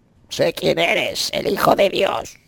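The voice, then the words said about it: Altered demon character voice. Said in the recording (Spanish): “voy a hacer la voz de los demonios ... pondremos esa vocecita, simplemente cambiar un poquito, poner la voz de demonio”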